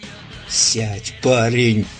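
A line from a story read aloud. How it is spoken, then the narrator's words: Hissed. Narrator (Russian): прошипел Дьюк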